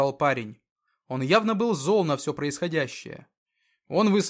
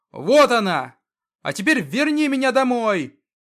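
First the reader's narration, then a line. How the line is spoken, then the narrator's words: Shouting at full strength. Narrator (Russian): Он кричал изо всех сил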